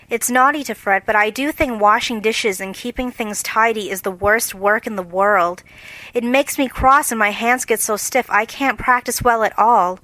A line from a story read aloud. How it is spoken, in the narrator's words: Beth with a sigh that anyone could hear